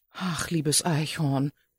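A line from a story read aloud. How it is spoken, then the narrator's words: Fairy sighing. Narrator (German): seufzte die Fee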